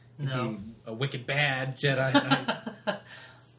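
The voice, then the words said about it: Bad put-on Boston accent. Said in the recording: “It's a terrible, terrible Boston accent.”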